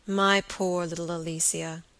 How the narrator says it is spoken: said Robert, as tenderly as if he had been addressing some spoiled child

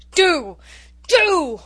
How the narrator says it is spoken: roared Norman

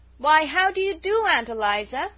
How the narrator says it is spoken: she said loudly

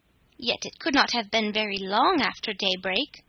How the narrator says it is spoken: said Claus

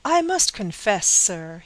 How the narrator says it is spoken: exclaimed with heat

